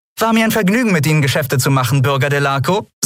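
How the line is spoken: Said cheerfully. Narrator (German): sagte sie fröhlich

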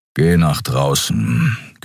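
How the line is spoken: Growling. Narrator (German): knurrte Keru

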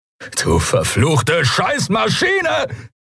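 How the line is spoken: Roaring. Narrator (German): brüllte er

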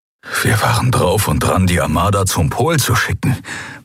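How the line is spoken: Horrified murmur. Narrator (German): murmelte er, entsetzt darüber, wie fatal diese Entscheidung gewesen wäre

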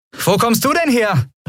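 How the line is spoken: Call out. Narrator (German): rief Andriel

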